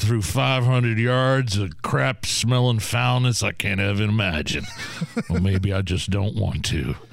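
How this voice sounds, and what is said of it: Weak impression, sounds like a redneck. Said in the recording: “my red impression is not that well done. I sound like a redneck from Beach Grove.”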